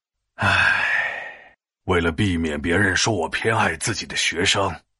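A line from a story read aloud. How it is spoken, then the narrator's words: Sighing. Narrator (Chinese): 欧阳修叹了叹气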